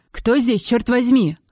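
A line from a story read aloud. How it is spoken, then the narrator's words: Shouted out. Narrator (Russian): выкрикнула я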